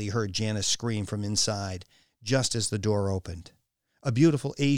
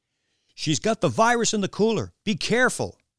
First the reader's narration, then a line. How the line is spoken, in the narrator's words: yelled